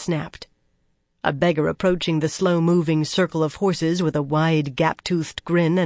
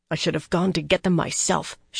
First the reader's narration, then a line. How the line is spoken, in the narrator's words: she growled bitterly